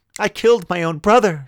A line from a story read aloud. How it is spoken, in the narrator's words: she cried